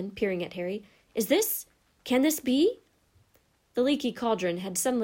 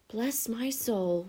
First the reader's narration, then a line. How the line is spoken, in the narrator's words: whispered the old barman